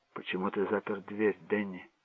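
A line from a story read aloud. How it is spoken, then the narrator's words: Quiet question. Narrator (Russian): спросила мать тихо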